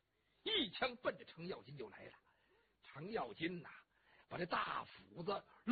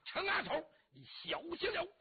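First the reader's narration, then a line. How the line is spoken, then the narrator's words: Shout. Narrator (Chinese): 翟让喊了一声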